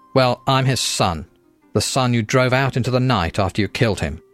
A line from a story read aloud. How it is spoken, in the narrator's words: Michael spat